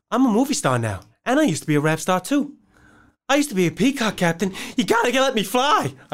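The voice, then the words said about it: Imitates another person's voice. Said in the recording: “my Mark Wahlberg impression ... that was bad at the end”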